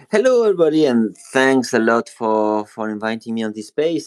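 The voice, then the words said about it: French accent. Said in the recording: “As you can hear with my accent, I'm French. I'm from Paris”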